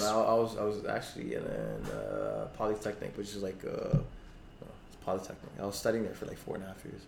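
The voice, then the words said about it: American, Los Angeles-sounding accent. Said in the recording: “Your accent is so LA, dude ... Your accent is very American.”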